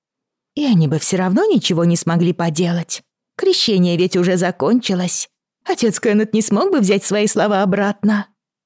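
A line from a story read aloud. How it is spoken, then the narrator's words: Giggling. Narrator (Russian): Она хихикнула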